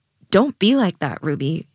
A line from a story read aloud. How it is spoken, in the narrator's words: Jade said